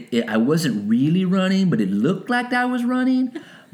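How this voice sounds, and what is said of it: Imitates a little kid's voice. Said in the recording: “It was kind of like that little kid ... I liked that impersonation ... that's the Bill Cosby thing”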